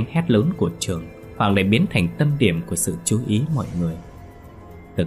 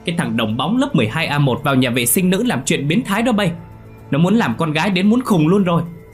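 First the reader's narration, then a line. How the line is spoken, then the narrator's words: Loud shout. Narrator (Vietnamese): Gã hét lớn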